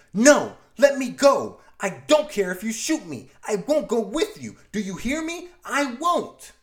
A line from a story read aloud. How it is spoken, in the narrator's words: She struggles against the man screaming